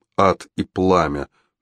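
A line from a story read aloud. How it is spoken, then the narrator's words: Grumbled. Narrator (Russian): буркнул Фитцстивен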